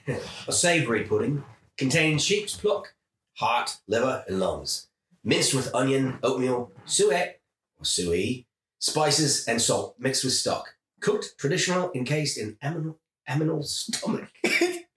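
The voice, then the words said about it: Put-on mixed, unplaceable accent. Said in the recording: “I was so distracted by the accent. ... I don't even know where the accent's from. ... It's like a hodgepodge of stuff.”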